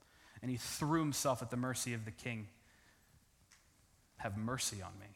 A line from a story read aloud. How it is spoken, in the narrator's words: He pleaded with him